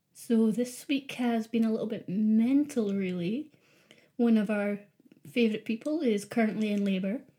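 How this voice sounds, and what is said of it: Edinburgh Scottish accent. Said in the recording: “the one with the Edinburgh accent ... Well, Edinburgh via Arbroath.”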